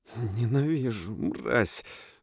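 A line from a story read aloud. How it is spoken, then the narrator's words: Hateful whisper. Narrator (Russian): шептала Фроя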